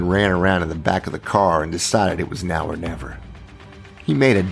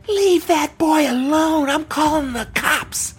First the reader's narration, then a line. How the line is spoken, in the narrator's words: a woman scream